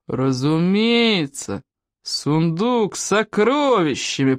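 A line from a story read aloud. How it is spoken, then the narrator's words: Booming. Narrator (Russian): прогудел Стоик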